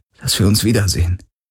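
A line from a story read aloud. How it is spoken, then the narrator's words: Gentle reminder. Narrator (German): erinnerte Garland sanft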